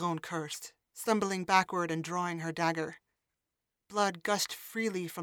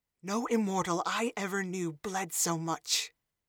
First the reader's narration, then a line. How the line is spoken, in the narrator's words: she hissed at him